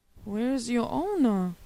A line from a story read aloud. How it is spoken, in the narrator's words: he wondered anxiously